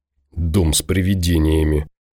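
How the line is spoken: Defensive grumble. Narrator (Russian): проворчал Ворожцов, будто оправдываясь

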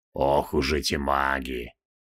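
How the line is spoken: Good-natured grumble. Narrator (Russian): добродушно проворчал Нергал

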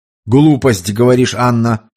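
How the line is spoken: Stern pronouncement. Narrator (Russian): строго изрек Туманов

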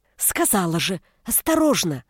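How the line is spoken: Strangled hiss. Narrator (Russian): Сдавленно прошипела я

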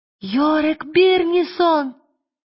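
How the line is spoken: Overjoyed shout. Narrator (Russian): закричала Лира, не помня себя от радости

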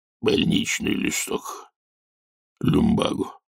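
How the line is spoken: Hoarse. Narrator (Russian): Земский сказал хрипло

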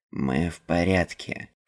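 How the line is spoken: Grumbled. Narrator (Russian): Пробурчал Нил

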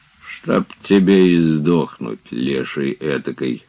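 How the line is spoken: Tearful grumbling. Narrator (Russian): ворчал он, отирая следы слез

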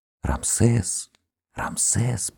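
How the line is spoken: Faint whisper from below. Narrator (Russian): послышался шепот, как будто с полу

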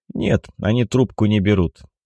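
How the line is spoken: Dejected voice. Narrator (Russian): поникшим голосом признался Александр

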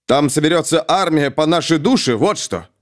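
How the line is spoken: Snapping retort. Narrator (Russian): огрызнулся Ангмар

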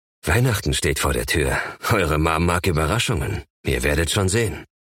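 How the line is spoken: Soft laugh while speaking. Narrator (German): Ihr natürliches Misstrauen muss sich in ihren Gesichtern wiedergespiegelt haben, denn er lachte leise und meinte

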